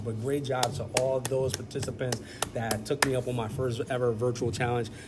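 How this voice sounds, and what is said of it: Very fast speech. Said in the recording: “I feel like I'm talking so fast.”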